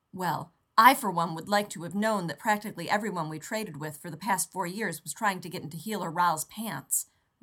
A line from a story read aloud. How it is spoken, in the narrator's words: Rodney snapped